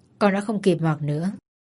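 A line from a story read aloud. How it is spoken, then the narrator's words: Muttering. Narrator (Vietnamese): Hoàng lẩm bẩm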